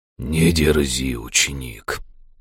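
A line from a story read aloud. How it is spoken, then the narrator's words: Growling skeleton voice. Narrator (Russian): рычащим голосом произнес живой скелет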